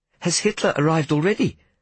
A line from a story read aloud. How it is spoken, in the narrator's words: I asked in a fearful voice